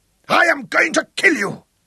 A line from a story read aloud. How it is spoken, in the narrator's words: roared